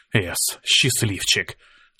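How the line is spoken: Breathless exhale. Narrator (Russian): выдохнул я

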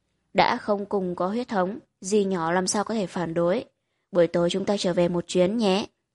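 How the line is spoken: Soft tender murmur. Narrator (Vietnamese): Mỗi thần vừa hôn vừa nói khẽ

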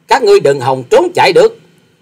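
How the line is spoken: Angry snort, loud shout. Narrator (Vietnamese): quái nhân áo xanh sắc mặt đang giận dữ hừ lạc một tiếng già quát to

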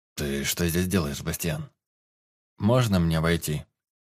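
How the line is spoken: Dry question. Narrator (Russian): сухо спросил друг

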